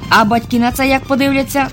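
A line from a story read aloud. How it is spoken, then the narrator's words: Plain. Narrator (Ukrainian): запитав професор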